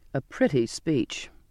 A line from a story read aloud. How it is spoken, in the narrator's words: the captain said scornfully